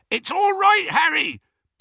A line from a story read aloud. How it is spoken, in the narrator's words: bellowed Hagrid